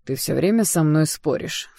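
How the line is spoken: Snort. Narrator (Russian): фыркнул Даррелл

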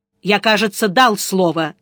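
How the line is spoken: Angry. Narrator (Russian): сердито сказал Сварог

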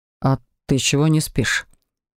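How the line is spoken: Tired question. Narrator (Russian): Устало поинтересовался он

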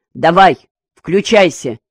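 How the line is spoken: Angry, over the phone. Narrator (Russian): сердито сказал ему по телефону Дыбачевский

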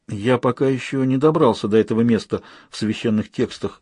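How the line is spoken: Uncertain. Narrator (Russian): неуверенно произнес Лобсанг

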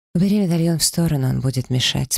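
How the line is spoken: Calm. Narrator (Russian): спокойно сказал мужчина

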